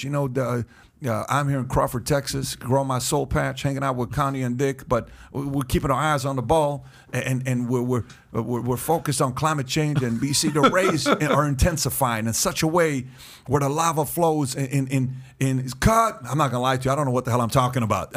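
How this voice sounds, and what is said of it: George W. Bush impression. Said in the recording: “the Bush impersonation.”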